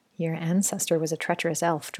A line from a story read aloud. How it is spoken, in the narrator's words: Jordan murmured